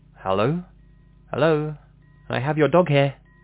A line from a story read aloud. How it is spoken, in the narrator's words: I called out